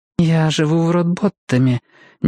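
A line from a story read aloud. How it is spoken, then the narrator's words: Uncertain. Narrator (Russian): неуверенно произнесла она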